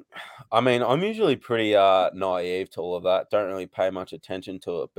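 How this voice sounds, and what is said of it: Noticeable foreign accent. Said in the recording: “You got the accent carries a little bit”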